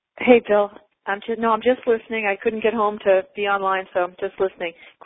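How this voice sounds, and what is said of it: Regional accent. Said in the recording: “that accent and remind me of the home of my childhood”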